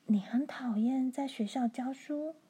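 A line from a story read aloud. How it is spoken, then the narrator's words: Near whisper. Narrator (Chinese): 罗兰的声音小得几乎在耳语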